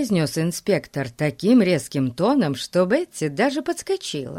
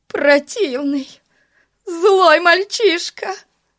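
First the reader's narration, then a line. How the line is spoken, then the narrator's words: Moaning. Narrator (Russian): застонала миссис Мун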